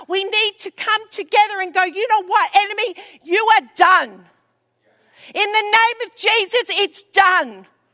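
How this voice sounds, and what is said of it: Yelling loudly. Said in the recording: “I'm yelling.”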